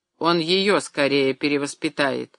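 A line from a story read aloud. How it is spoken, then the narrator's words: Gloomy remark. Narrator (Russian): мрачно заметил Алексей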